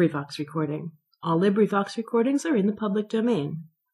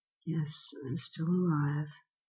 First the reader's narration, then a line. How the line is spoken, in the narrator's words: I answered feebly